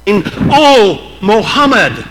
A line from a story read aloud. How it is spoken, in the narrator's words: exclaim